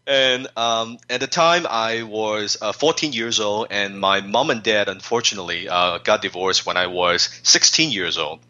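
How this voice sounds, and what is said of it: Chinese-accented English. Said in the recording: “not a word of the English language on my lips, as you can tell from my accent. Some of my friends, they say I still speak like Jackie Chan.”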